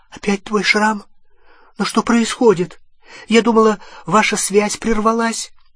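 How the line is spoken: Frightened question. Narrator (Russian): Гермиона испуганным голосом спросила

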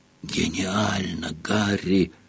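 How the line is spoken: Whispered. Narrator (Russian): прошептал Рон

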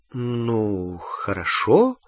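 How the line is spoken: Uncertain agreement. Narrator (Russian): неуверенно согласилась Гермиона

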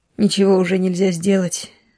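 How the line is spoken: Sighing master. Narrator (Russian): вздохнул хозяин

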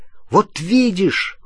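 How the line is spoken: Exclaimed. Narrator (Russian): воскликнул Рон

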